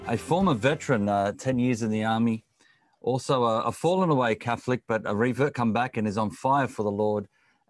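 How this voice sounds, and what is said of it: Accent with rolled R's. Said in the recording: “I love your accent. It's just amazing. ... congratulate you on the Rolling R's”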